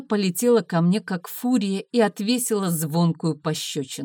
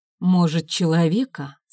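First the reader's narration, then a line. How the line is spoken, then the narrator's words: Calm reply. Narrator (Russian): спокойно ответил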